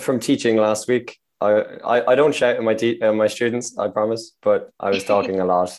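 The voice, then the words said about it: Slightly hoarse, strained voice. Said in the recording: “My voice is a bit off ... It's not ideal for radio interviews ... lost my voice slightly, but it's getting better”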